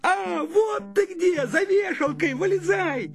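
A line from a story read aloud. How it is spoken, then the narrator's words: Excited shout. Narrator (Russian): Славик увидел и закричал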